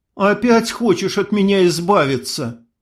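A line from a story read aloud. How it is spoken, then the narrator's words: Sobbing. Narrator (Russian): всхлипнула Ксения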